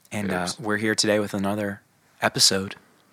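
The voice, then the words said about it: Soft, smooth public-radio announcer voice. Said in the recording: “I'm doing a soft intro ... Why are you talking like you're on NPR? ... This is my NPR voice.”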